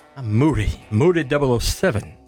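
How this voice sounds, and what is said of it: Put-on English accent, Elvis-like. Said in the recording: “English Moody. Accent. ... No, I sound like Elvis. ... You even had a lip snarl.”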